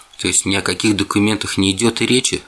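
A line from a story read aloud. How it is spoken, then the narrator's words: Plain question. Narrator (Russian): наконец спросил он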